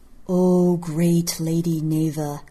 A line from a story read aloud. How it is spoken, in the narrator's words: a voice intoned